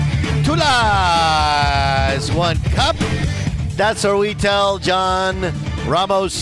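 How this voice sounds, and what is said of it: Usual voice. Nothing is said of it.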